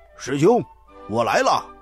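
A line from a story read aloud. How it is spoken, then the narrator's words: Shouting. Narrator (Chinese): 沙僧大喊一声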